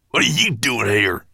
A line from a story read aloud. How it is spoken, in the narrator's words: spat Gravelbeard